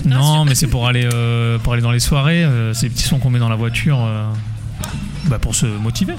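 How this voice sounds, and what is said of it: Singsong southwestern French accent. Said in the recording (French): “le sud-ouest ... ce petit accent ... l'accent chantant”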